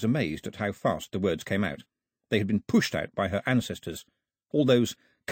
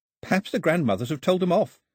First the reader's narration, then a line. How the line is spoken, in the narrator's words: said Daphne, giggling